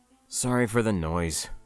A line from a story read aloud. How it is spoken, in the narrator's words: I muttered